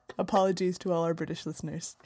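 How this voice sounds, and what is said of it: Put-on British accent, quiet and sultry. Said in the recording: “when you talk with the accent, you suddenly become much more quiet and sultry as opposed to your normal loud American loudness”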